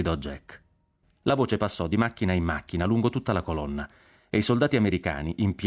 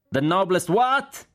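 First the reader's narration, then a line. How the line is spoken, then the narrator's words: General shouting. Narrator (Italian): gridò il generale Cork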